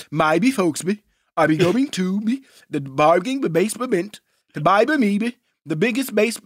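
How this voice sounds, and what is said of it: Cartoon character voice, mumbled 'b' syllables. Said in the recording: “Do your Mushmouth impersonation.”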